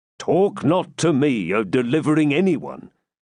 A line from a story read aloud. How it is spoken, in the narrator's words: said Athelstan